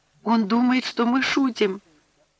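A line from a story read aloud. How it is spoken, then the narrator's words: Near tears. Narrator (Russian): Аннушка, чуть не рыдая, сказала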